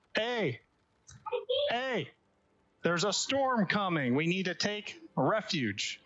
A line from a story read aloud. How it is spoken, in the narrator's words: yelling